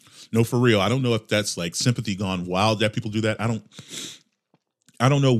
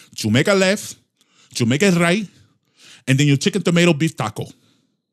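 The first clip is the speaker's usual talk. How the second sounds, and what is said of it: Put-on foreign accent, broken English. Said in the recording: “I'm not talking in accent.”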